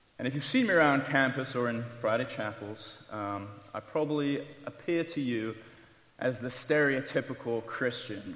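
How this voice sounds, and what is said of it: British English accent. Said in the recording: “as you can probably tell from my accent, I am from Texas. ... That's an example of British humor. ... I left that glorious country of England”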